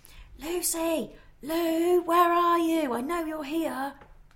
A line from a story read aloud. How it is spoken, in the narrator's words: He even shouted out